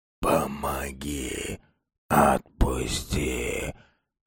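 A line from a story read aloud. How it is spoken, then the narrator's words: Dead man's quiet clear wheeze. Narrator (Russian): Просипел мертвый барин негромко, но четко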